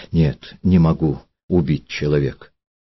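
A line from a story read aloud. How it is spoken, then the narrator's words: Quiet. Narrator (Russian): Тихо сказала Елизавета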